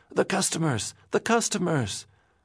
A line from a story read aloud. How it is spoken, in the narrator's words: Morris pleaded